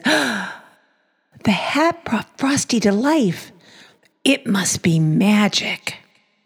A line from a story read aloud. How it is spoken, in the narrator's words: Karen gasped and said